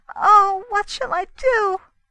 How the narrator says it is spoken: wailed Mrs

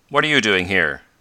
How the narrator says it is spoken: asked sharply

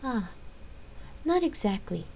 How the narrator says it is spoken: Gabrielle sighed

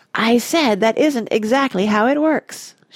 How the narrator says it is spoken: shouted Mike TV

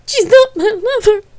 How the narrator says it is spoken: sobbed Gabrielle

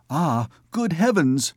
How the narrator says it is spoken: exclaimed Agnes

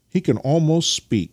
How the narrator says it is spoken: cried Nikita

